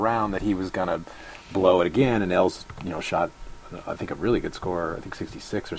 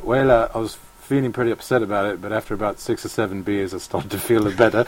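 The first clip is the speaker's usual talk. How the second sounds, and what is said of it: Imitated South African accent. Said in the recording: “On the spot South African accent there. I did not see that coming. That's pretty good. ... I've worked hard at my South African accent”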